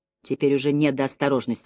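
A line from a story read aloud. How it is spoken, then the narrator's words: Grumbled. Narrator (Russian): буркнул я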